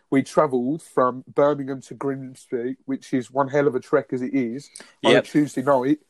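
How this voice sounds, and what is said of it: Birmingham (Brummie) English accent. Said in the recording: “as you can tell, I've got a Brummie accent”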